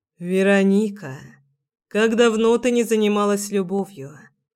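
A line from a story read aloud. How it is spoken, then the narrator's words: Soft repetition. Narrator (Russian): повторил он мягко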